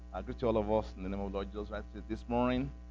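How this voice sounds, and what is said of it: Heavy Nigerian accent. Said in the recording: “I just came back from Nigeria now, from Africa. So my accent might be pretty heavy a little bit.”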